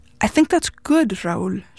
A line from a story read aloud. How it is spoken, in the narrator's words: she finally said